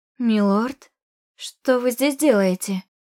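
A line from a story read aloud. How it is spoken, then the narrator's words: Strained hoarse wheeze. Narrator (Russian): Просипела через силу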